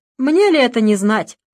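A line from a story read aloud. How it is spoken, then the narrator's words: Officer's wry snort. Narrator (Russian): хмыкнул политрук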